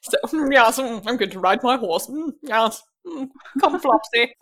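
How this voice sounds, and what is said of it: Exaggerated posh British accent. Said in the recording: “that is the voice that people put on when they think they're doing a British accent”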